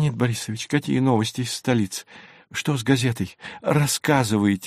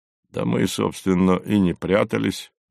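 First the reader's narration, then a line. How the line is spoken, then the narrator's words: Gruff mutter. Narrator (Russian): буркнул Горький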